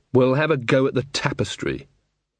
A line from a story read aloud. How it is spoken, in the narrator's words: said Magrat firmly